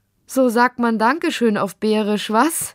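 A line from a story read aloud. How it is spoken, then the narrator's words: Laughing. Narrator (German): sagte sie lachend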